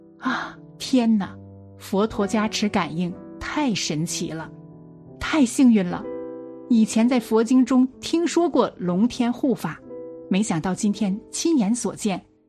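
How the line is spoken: Crowd exclaiming in awe. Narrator (Chinese): 大家纷纷发出感叹

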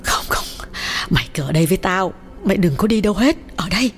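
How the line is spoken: Frightened pleading. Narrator (Vietnamese): Bà Lý sợ hãi nhắc lại

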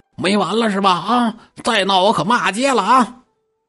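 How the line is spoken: Shouting. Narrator (Chinese): 陶望三从这喊

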